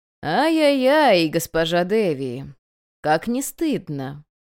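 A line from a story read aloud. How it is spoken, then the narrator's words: Singsong, drawn out, relishing. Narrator (Russian): Нараспев, почти с удовольствием протянул он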